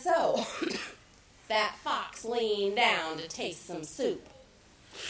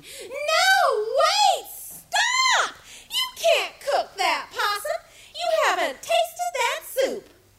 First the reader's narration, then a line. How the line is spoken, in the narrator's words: all those animals, especially the possum, started screaming